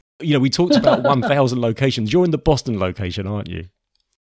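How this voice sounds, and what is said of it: British accent. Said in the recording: “that sounds so much better with the British accent ... they say in Hollywood that everything sounds better with a British accent”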